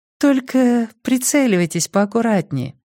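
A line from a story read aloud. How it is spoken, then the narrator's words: Purring, girl. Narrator (Russian): промурлыкала девчонка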